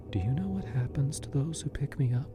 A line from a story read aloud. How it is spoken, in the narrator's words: she whispered, her voice barely audible over the roaring in my ears